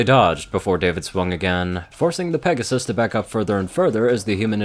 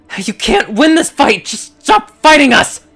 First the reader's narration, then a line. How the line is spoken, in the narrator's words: The Pegasus screamed into David's ear